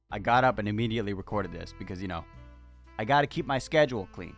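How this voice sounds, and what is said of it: Raspier voice than usual. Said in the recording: “my voice did that ... It's more raspy than usual. That's because it's early in the morning.”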